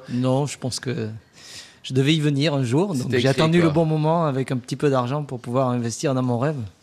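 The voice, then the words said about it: French regional accent. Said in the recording (French): “vous avez un joli accent”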